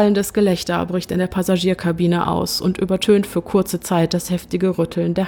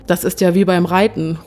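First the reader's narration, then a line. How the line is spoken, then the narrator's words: Calling out. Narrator (German): ruft ein anderer als Reaktion auf die nächsten Turbulenzen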